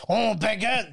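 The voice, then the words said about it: Put-on French accent. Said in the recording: “I'm going to do a French accent.”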